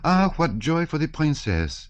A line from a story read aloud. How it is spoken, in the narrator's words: exclaimed she